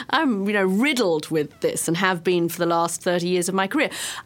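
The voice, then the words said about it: British accent. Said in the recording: “I speak with a British accent”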